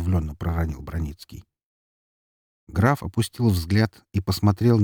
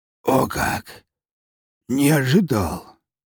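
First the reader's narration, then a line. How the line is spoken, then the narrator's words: Hoarse wheeze. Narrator (Russian): прохрипел он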